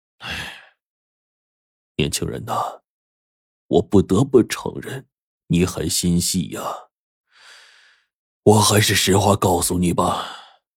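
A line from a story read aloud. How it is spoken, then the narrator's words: Hesitant sighing old man. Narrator (Chinese): 这老爷子犹豫了片刻，叹了口气说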